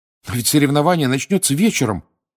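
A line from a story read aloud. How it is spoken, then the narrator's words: Alarmed exclamation. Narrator (Russian): воскликнул Гарри, испугавшись, что перепутал время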